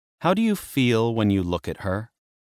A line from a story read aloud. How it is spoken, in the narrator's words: Hecate asked